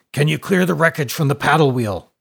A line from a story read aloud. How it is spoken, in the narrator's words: grunted the captain